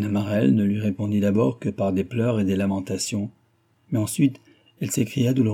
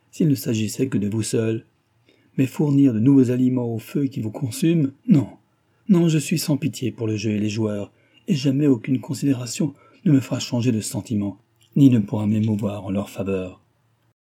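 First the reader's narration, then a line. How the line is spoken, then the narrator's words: Exclaiming. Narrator (French): s'écria Cécile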